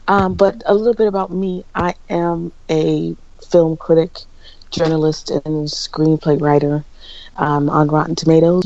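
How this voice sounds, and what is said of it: Deep, just-woken-up voice. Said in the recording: “I sound like I have such a deep voice this morning. I just woke up from a very hard sleep”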